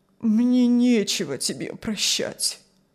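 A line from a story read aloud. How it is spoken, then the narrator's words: Sad old man. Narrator (Russian): ответил старик печально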